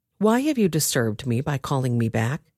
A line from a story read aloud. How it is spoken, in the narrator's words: Samuel asked Saul